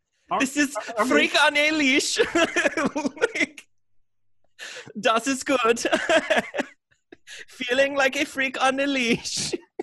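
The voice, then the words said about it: Put-on German accent. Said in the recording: “Are they German? ... this is an appropriate accent that we can just step all over ... we can do this accent”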